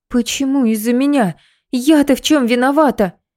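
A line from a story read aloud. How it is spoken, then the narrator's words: Sharp outburst, then sobbing. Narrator (Russian): Резко вскинулась Лида и следом разрыдалась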